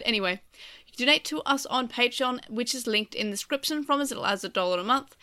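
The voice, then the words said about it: Congested, sinus-blocked voice. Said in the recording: “My sinuses are really sore. ... I cannot do words ... if I sound weird ... My sinuses are bad.”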